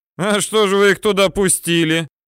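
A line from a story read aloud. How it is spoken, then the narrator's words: Snide question. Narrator (Russian): ехидно спрашивает Каштенков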